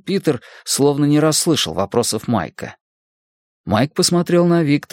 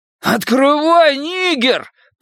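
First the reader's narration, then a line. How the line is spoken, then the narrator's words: Roaring. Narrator (Russian): проревел Генри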